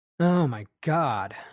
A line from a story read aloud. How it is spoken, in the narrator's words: said, chuckling to myself